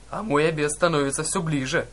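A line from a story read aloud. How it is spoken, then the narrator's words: Ogre's roaring laughter. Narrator (Russian): расхохотался людоед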